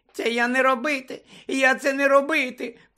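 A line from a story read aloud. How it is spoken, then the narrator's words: Terrified squeak. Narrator (Ukrainian): пропищала від жаху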